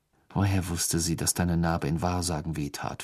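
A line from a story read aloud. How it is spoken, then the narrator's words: Plain. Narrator (German): fragte Ron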